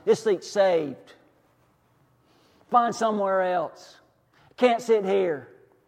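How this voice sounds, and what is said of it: Put-on Southern US accent. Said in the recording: “That's my southern accent, by the way. Doesn't play well in Alabama either.”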